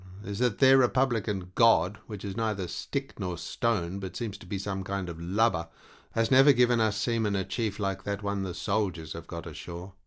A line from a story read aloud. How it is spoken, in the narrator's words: he continued in a resentful tone